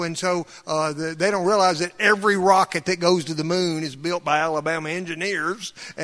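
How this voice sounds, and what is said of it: Thick Southern US accent. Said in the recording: “a thick Southern accent ... my accent”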